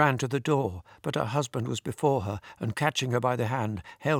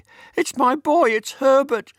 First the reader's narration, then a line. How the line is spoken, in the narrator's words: cried